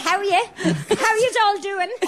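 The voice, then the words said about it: Put-on posh accent. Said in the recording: “I was told that I'd have to put on my posh accent this morning by my son”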